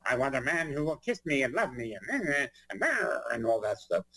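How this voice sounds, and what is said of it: Imitates another person's voice. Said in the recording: “I did Eartha Kitt ... You do a very good impression of me”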